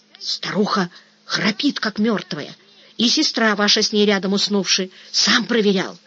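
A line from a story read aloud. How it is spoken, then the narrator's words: Gleeful whisper. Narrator (Russian): радостным шепотом выдавил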